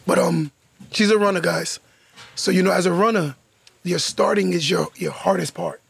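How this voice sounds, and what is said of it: Hoarse, strained voice. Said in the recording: “My throat. I'm sorry. ... My voice is like shot.”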